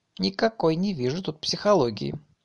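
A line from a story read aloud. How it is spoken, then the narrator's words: Sighing. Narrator (Russian): вздохнул Варя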